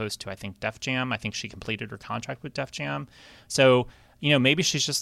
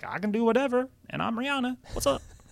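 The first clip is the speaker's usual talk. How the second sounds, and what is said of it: Imitates another person's voice. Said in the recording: “It's a good impression.”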